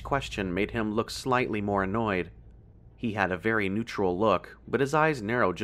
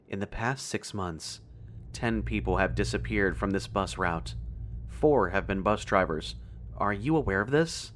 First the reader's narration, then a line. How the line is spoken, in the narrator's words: He was speaking so softly he was hard to hear